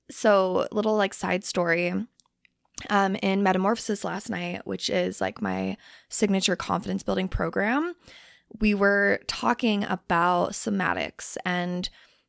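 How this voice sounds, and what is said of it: Slightly rough, under-the-weather voice. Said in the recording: “My voice might sound a little bit not the greatest just because I'm like kind of I don't know, like I'm fighting something, like this little cough”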